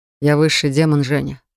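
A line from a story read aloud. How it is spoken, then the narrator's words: Smirking snort. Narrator (Russian): хмыкнул Рив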